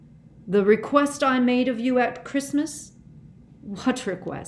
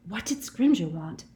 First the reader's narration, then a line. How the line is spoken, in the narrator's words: Hermione whispered